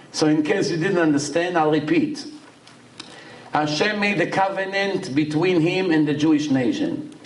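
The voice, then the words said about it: Accented but clear English. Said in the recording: “I know I have accent, but I think my English is a little bit clear, no?”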